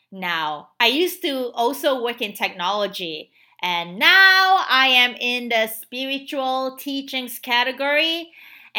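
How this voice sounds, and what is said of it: Southeast Asian accented English. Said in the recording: “my accent. I'm originally from Southeast Asia.”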